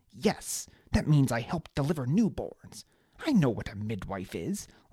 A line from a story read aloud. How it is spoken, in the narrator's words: Liana snapped